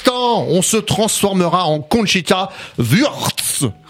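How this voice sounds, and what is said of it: Exaggerated put-on accent, retching sound. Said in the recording (French): “ton accent là il m'a fait peur. On aurait dit que tu vomissais.”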